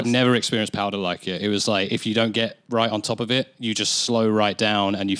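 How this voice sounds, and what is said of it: English accent. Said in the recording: “With my English accent”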